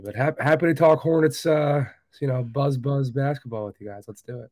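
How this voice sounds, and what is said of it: Hoarse, strained voice. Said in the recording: “I apologize for my voice. I screamed it away in the Lincoln Financial Field on Sunday.”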